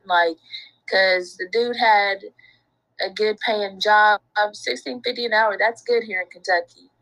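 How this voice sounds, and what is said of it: Southern American accent. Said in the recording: “I knew you was somewhere in the South because I could hear that accent.”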